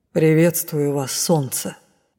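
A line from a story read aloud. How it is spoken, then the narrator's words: Solemn ruler's pronouncement. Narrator (Russian): торжественно произнес повелитель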